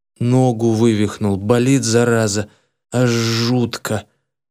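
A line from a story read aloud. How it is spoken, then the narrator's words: Near groan. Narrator (Russian): почти простонал в ответ Петро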